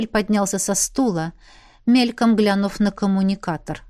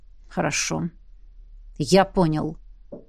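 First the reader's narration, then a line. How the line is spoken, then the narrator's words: Gloomy. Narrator (Russian): мрачно сообщил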